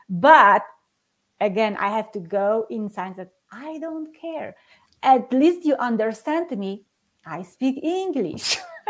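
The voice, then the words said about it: Slight non-native English accent. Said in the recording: “there is this little accent that I put in on different letter and it sounds for them differently ... I will have my accent for the rest of my life”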